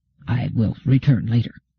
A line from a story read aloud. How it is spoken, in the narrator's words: He said in a low voice